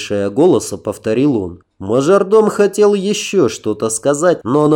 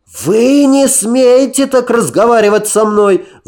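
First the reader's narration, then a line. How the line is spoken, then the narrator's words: Shrieked with sudden courage. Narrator (Russian): Взвизгнул мажордом, неожиданно выказывая мужество, которого не проявлял до этого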